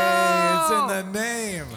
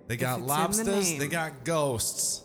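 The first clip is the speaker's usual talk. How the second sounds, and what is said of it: Put-on New England accent. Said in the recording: “That's my New England accent. Northeast.”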